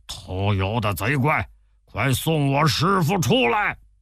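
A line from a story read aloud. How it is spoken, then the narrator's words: Loud cursing. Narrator (Chinese): 他又高声叫骂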